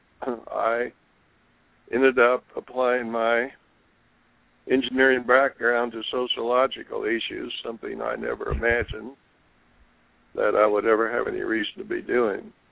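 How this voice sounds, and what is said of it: Hoarse, sick-sounding voice. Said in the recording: “excuse my voice. I'm recovering from somewhat of a cold.”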